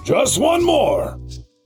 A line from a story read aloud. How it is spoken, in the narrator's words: hollered